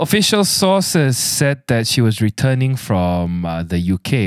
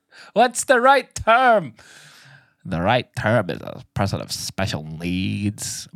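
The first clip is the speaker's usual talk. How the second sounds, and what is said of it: Put-on American accent. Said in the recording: “My woke angel has an American accent.”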